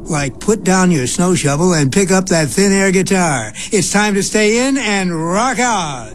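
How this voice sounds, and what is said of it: Exaggerated radio DJ voice. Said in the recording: “you want to hear my radio voice?”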